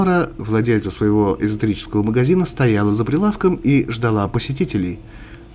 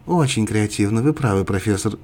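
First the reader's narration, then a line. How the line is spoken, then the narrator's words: Quiet addition. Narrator (Russian): тихо добавила Биба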